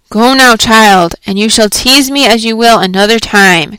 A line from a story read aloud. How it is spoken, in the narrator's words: cried Hester Prynne